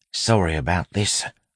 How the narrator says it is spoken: Wayne whispered

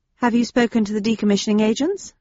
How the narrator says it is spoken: I asked

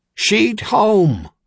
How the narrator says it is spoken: Lathic bellowed through his speaking trumpet

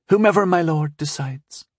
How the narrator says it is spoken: she said sweetly

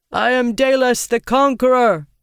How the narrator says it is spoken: he called out

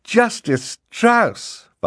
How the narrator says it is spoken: Violet cried

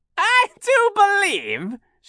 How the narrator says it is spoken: she said, cackling

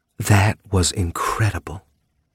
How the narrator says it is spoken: purred lightly

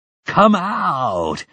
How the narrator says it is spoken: urged that distant, mad, laughing voice

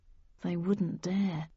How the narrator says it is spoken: I whispered

